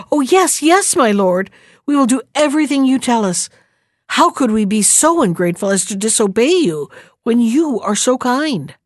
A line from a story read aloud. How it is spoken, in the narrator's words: Then they found their tongues and exclaimed together